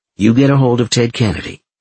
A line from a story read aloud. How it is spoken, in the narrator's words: Denise said